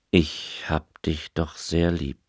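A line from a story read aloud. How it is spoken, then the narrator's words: Plain. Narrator (German): sagte er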